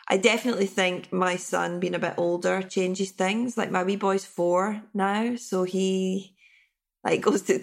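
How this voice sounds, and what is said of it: Tired, slightly sick-sounding voice. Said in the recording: “I'm tired. You can hear it in my voice. It's like, I'm getting a bit sick.”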